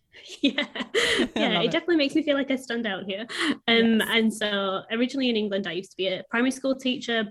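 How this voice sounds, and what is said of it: Strong northern English accent. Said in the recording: “from a place called Bradford in the north of England, which is the very strong accent. Sounds a little bit like a Game of Thrones character”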